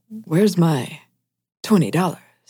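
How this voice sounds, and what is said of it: William Shatner impression. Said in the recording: “my William Shatner impression ... That's pretty good ... it's serviceable at any rate ... our Shatner impressions”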